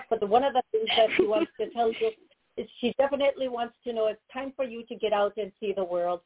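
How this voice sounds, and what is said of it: Very fast speech, slight accent. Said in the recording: “I'm talking very fast, and I have a bit of a the accent comes in. This is not how I normally talk”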